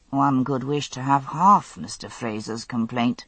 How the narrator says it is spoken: murmured Francis Townsend, with no attempt at concealing the sardonic smile

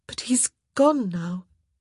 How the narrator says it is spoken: she said in a shaky voice

